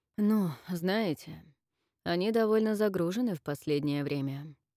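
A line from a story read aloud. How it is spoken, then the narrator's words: Tired. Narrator (Russian): устало ответил спецэксперт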